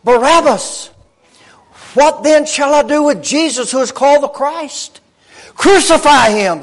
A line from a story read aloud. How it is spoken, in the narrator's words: they said